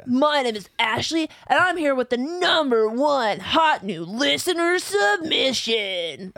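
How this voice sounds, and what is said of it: Anime protagonist style voice. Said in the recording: “Do that same voice ... that sounded so much like Ash Ketchum. It's a very anime protagonist.”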